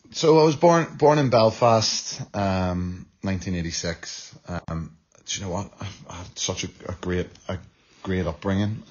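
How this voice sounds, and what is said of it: Irish accent. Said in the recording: “that beautiful Irish accent”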